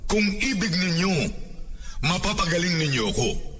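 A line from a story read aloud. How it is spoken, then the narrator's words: Pleading. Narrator (Tagalog): ketungin nagmakaawa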